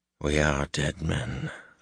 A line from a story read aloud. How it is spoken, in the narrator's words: Luz Theron murmured